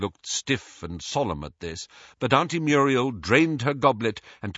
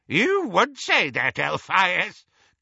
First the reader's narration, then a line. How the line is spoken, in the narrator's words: cackled Auntie Muriel